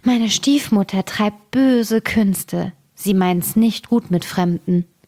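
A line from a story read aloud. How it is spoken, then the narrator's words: Sighing girl speaking. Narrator (German): Das Mädchen seufzte und sprach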